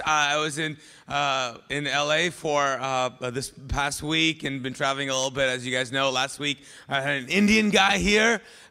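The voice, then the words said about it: Hoarse, worn-out voice. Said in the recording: “lost my voice”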